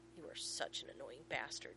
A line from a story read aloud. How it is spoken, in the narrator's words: John growls